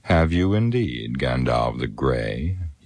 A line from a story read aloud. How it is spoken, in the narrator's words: scoffed